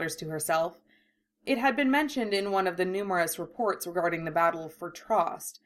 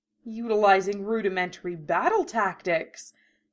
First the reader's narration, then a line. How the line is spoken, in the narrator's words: she gasps